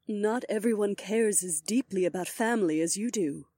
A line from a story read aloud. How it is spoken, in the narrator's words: my wife pointed out in a gentle voice